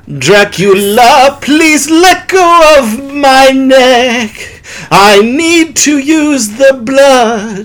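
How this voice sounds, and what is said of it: Sung imitation of another person's voice. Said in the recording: “my David Bowie impression ... Singing like David Bowie's fun.”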